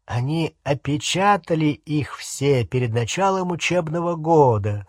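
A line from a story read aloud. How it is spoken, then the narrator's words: Plain. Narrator (Russian): сказал Невилл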